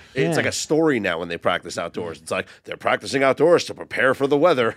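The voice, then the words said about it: Newscaster voice. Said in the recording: “Was that your newscaster voice? ... Yes.”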